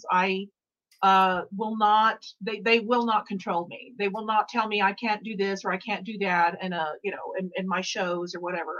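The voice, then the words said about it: Slight Southern twang accent. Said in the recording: “I got a little Southern twang”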